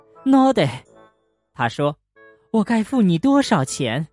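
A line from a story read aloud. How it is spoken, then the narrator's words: Breathless. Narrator (Chinese): 宝玲太太气喘吁吁的说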